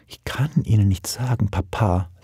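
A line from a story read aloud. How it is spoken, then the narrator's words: Young woman whispering. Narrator (German): flüsterte unsere junge Großmutter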